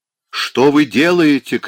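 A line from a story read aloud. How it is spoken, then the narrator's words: Booming bell-like shout. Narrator (Russian): кричал Тверитинов голосом гулким, как колокол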